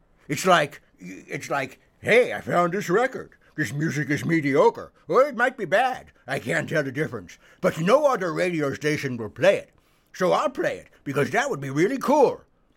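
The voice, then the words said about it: Imitation of a typical radio DJ. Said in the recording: “That was my flawless imitation of a typical WFMU disc jockey.”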